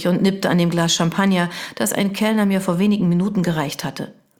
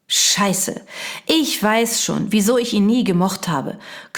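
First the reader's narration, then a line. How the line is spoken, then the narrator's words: Growled. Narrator (German): knurrte Jana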